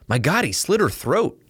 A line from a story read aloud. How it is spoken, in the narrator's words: exclaimed Gates